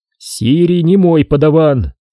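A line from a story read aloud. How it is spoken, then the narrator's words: Stern. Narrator (Russian): строго ответил Куай-Гон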